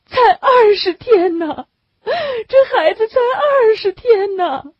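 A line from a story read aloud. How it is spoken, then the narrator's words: Woman bursting into tears. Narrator (Chinese): 女人哇的一声哭起来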